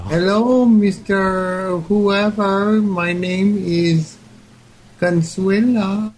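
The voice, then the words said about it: Put-on Mexican accent, woman's voice. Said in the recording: “do an impression of a Mexican lady in Tennessee ... that's pretty good”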